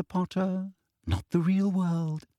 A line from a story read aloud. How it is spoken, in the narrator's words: she said softly